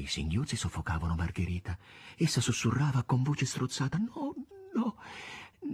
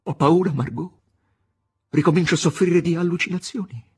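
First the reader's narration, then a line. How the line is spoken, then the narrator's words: Shout through bared teeth. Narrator (Italian): Gli grignò i denti, gridò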